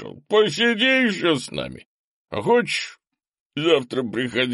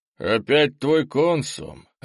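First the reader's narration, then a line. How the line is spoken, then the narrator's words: Even-voiced leader. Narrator (Russian): ровным голосом сказал главарь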